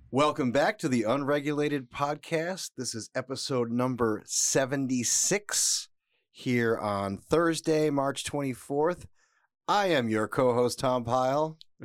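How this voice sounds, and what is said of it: Polished radio voice. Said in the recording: “the best radio voice in podcasting land ... you had a voice for radio”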